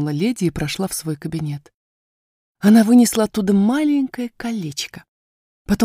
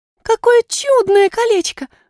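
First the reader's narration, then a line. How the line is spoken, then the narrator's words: Exclamation. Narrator (Russian): воскликнула Айрин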